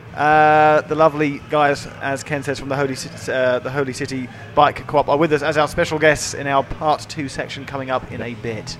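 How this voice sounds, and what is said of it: British accent. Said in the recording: “another British man in the house ... I'd be the only British accent. British accent.”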